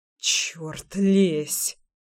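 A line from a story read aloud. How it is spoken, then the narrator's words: Muttering. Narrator (Russian): пробормотал я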